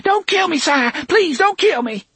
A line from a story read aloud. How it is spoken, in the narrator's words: Tilly, her dough-colored face a mask of confusion and superstitious fear, shrieked